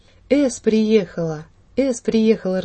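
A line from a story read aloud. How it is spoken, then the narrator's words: Joyful voices all around. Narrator (Russian): раздалось со всех сторон так радостно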